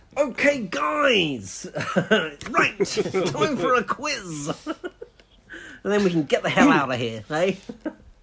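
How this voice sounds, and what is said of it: Imitates another person's voice. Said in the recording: “do my best Joe Power impression.”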